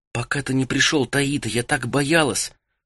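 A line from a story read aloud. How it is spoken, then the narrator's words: Whisper. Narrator (Russian): прошептала Фен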